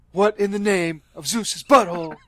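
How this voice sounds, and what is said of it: Imitates another person's voice. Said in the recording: “do your Nicolas Cage impression.”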